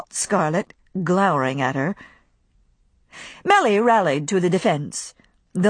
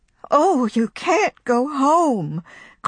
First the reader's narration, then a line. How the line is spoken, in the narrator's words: cried Pittipat, bursting into tears